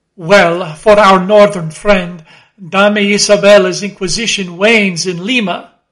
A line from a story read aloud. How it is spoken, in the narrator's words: laughed Don Sebastian